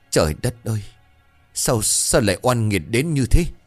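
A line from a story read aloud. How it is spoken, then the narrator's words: Old man trembling. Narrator (Vietnamese): Ông làng hợi nghe vậy thì run rẩy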